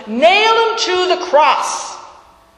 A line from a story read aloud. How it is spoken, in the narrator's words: they all shouted